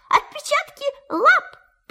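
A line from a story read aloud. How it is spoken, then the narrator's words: Excited squeal. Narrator (Russian): Пятачок даже взвизгнул от волнения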